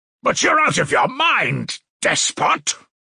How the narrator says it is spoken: roared Razumihin

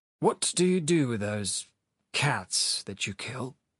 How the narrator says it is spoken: asked in a dull, mechanical voice

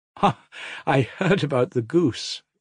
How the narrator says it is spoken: Ilusha laughed, beaming all over

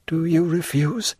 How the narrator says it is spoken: said Mercedes, in a tremulous voice

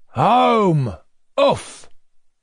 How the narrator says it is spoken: shouted Petrushka

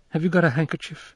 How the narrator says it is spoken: she faltered

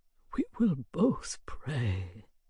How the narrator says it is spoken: he said in a soft, broken voice

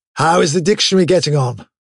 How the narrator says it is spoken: said Winston, raising his voice to overcome the noise

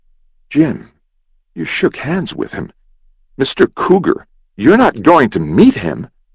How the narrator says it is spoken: Aside, Will spluttered

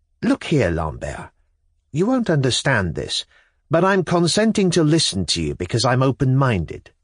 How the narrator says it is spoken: I declared firmly

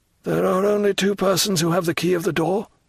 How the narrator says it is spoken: murmured Morel

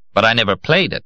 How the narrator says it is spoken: he concluded sharply

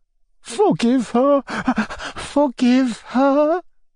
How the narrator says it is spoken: Anna Andreevna exclaimed, sobbing

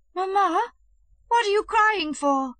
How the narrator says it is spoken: he cried in a tearful voice

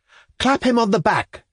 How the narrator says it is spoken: cried somebody

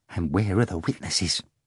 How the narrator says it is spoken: Korovyov whispered in his other ear

